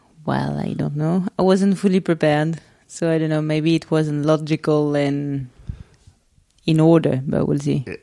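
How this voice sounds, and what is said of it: French accent. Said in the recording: “my French accent isn't too strong ... Her French accent is so strong”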